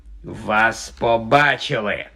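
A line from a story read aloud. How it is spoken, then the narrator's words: Hissed. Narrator (Ukrainian): просичав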